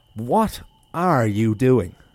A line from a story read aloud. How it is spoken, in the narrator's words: shouted